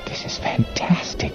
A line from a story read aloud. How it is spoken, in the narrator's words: Joe whispered